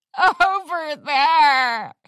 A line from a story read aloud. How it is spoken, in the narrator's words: Ritzy cried out dramatically